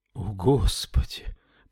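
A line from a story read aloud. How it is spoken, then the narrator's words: Whisper. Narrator (Russian): прошептал Уильям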